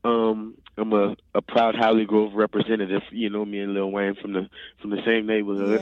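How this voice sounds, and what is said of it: Slight New Orleans accent. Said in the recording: “I'm actually from New Orleans. ... my accent ... It's sneaking out a little bit here and there. I can hear it just a little bit.”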